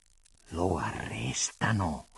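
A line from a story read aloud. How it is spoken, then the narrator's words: Hissed through teeth, trembling. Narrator (Italian): fischiò allora tra i denti Antonio del Re, col volto scontraffatto e tutto vibrante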